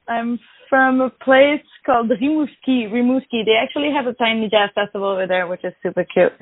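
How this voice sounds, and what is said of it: Slight French-Canadian accent. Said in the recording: “I'm French-Canadian. Maybe you can hear a little bit of an accent.”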